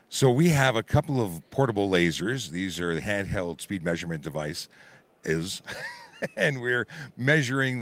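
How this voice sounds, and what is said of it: Hoarse voice. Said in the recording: “hoarse voice ... your voice is getting hoarse”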